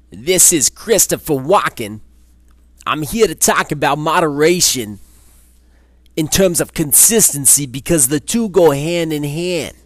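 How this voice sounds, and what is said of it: Poor Christopher Walken impression. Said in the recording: “that impression went off the deep end really quick. Not a great one. ... Christopher Walken impression”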